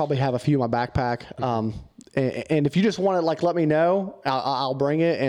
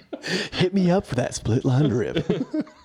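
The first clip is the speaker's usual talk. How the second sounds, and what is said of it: Radio DJ voice. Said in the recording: “Get my radio DJ voice on.”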